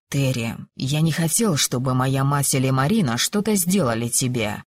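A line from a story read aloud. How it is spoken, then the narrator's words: Quiet. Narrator (Russian): тихо произнес он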